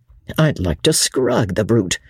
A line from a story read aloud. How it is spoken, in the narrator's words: muttered Sir Andrew savagely